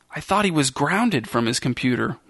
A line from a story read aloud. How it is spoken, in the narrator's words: whispered Sophie